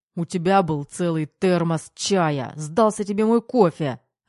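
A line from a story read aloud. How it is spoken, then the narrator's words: Barking. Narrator (Russian): рявкнул Терехов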